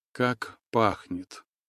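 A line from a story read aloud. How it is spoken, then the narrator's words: Relaxed drawl. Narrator (Russian): расслабленно протянула Настя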